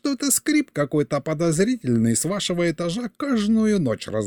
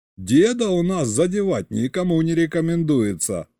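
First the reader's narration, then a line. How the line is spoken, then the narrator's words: Chuckling. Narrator (Russian): хохотнул Саня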